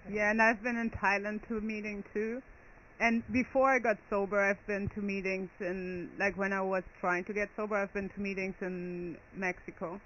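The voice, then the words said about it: Slight German accent. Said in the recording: “you have kind of a German accent.”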